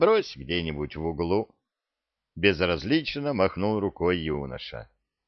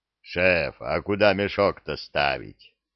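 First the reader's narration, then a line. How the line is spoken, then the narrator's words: Creature's booming drone. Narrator (Russian): прогудел зырк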